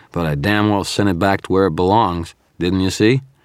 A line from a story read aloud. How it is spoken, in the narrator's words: I said, my voice slurred with fatigue